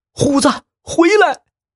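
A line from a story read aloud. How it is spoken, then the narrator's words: Urgent shout. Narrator (Chinese): 他急忙大叫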